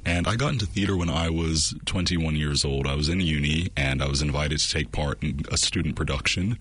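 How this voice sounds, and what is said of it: Strong American accent. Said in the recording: “with that accent, I'm guessing you're not a West Aucklander ... I'm originally from Bermuda, but I grew up in the US, hence the strong accent.”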